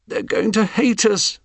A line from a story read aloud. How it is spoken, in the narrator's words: moaned